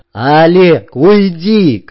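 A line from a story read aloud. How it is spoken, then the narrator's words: Shout. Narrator (Russian): крикнул Герберт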